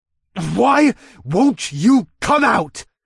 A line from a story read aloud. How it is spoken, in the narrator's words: snarled